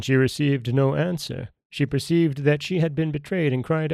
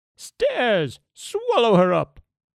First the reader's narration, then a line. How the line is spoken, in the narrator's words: The ogress, enraged, exclaimed